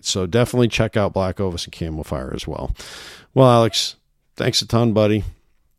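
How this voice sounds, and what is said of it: Hoarse, fading sick voice. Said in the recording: “I'm losing my voice here. I'm waning... I'm so sick”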